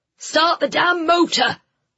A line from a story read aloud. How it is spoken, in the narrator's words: one of the men shouted